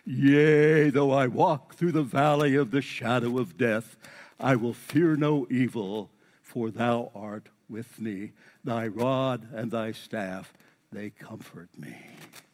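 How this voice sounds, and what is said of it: Preacher voice. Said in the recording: “I'm doing this in my preacher voice.”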